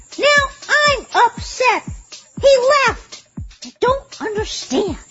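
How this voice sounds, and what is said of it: Shouting, upset. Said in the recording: “I'm shouting.”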